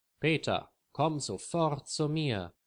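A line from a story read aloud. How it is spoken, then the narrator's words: Loud call. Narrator (German): ruft Lisa laut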